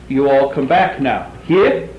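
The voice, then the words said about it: Heavy put-on Southern US accent. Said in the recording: “That's a little heavy accent. Even my accent isn't very good.”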